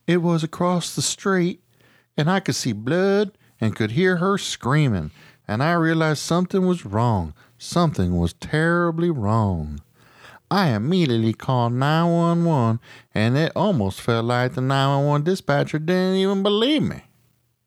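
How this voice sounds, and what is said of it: South Carolina woman's accent. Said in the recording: “That was my South Carolina lady impression. ... I think it was good. ... That don't damn end sound pretty good.”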